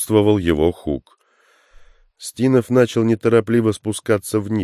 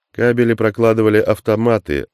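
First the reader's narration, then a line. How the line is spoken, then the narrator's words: Plain. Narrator (Russian): ответил Стинов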